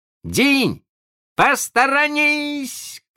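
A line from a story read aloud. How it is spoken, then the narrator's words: Shouted. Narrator (Russian): крикнул он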